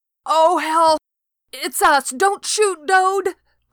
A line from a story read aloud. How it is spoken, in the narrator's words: I screamed